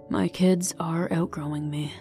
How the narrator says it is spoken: said with a sigh

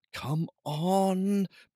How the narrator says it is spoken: breathed Finn

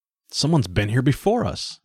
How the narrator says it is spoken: he exclaimed

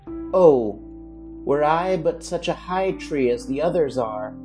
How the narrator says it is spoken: sighed he

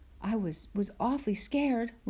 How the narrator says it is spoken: Laura gasped

